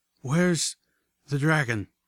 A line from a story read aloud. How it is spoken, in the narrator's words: I panted